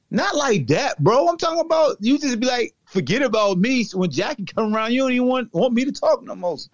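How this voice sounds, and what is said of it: Southern country twang. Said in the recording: “I got to talk with my country twang, man. I am from Roanoke Rapids, North Carolina.”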